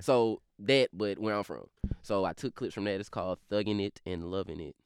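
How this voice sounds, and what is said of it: Fast, slurred drawling regional accent. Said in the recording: “how off-putting my accent is ... borderline unintelligible ... I'm speaking so fast and with such a kind of slur and drawl in my voice”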